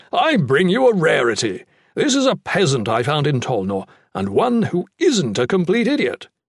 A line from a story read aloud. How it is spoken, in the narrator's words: Torbrand said happily